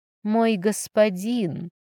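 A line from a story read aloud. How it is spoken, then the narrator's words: Purring. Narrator (Russian): промурлыкала она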